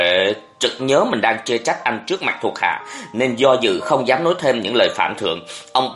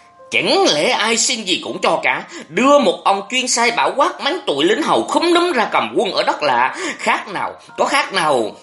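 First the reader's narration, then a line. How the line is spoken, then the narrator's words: Irritated, angry voice. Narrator (Vietnamese): Giọng Nguyễn Huệ đầy bực dọc tức giận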